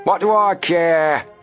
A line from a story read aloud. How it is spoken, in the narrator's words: Snapman shouted